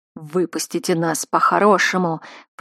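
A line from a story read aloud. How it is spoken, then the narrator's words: Growled. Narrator (Russian): прорычал Зан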